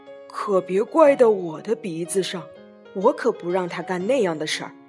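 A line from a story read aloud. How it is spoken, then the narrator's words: Loud question. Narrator (Chinese): 小猪噜噜大声问道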